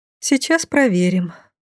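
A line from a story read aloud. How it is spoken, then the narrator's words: Sighed. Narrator (Russian): вздохнула я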